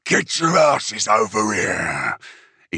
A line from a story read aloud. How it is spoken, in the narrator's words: bellowed